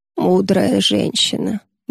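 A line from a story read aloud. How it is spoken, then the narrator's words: Sleepy mumble. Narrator (Russian): бормочет Юдора, погружаясь в сон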